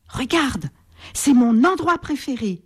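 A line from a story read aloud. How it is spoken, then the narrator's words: Joyful exclamation. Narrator (French): s'exclame-t-il joyeusement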